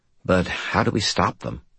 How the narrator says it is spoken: I sighed

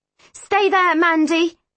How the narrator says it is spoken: she shouts to me

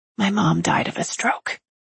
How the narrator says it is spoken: she whispers in my ear

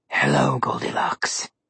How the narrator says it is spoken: Malum Claw growled

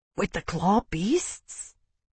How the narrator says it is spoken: Jamie whispered

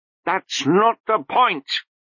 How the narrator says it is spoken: said Lobsang hotly

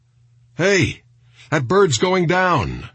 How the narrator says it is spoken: shouted one of the men across the street

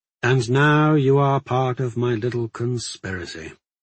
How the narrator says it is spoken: I said sadly

